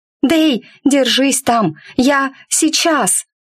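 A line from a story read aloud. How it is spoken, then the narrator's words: Screamed. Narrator (Russian): завопила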